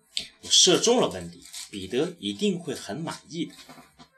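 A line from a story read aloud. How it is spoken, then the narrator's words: Proud, loud. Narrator (Chinese): 骄傲的大声说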